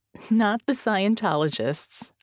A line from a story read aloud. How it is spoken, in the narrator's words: I laugh